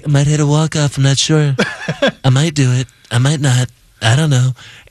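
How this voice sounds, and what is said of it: Impression of a president's voice. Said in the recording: “don't do that impression ... people have always done presidential voices”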